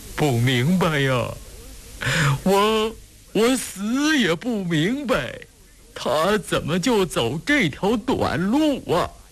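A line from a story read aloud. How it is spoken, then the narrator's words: Hoarse choked sobbing. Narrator (Chinese): 闻七十四低垂着头，声音嘶哑哽咽，抽泣着摇着头，断断续续地说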